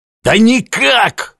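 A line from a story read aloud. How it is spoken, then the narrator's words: Hoarse executioners. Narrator (Russian): хрипели палачи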